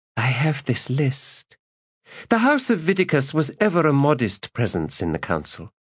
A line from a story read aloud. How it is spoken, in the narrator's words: she said